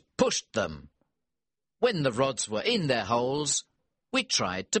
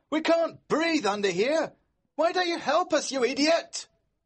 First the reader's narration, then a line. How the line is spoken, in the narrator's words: we heard George shout